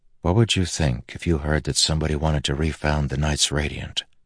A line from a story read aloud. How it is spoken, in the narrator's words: Kaladin said softly to Teft